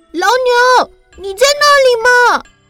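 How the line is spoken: Brave loud shout. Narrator (Chinese): 她鼓起勇气大喊

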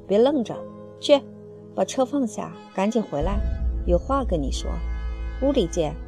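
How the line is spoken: Low voice. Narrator (Chinese): 他声音不高地说

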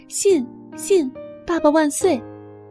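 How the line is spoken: Loud shouting. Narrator (Chinese): 乔 大声嚷嚷

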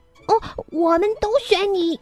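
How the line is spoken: Loud chorus of animals. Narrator (Chinese): 所有的动物都会大声叫道

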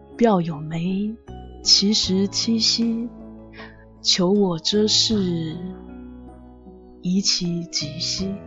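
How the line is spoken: Slow chanting. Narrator (Chinese): 陈兰慢慢吟道

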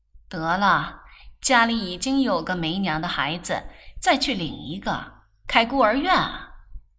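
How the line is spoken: Laughing. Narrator (Chinese): 曼璐笑道

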